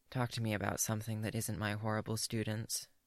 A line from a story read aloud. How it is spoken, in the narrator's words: She mutters